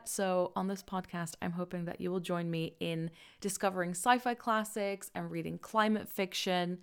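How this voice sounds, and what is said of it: Dutch accent. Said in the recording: “Don't let the accent throw you off. I am originally from the Netherlands”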